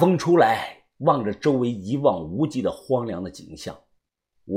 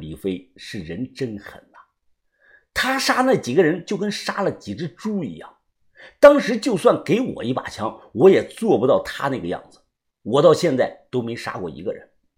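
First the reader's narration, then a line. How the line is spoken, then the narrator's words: Awed sigh. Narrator (Chinese): 我不由得感叹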